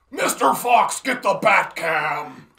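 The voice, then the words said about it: Christian Bale Batman growl impression. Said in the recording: “He's Christian Bale-ing right at the dick. ... I could do that voice all day long.”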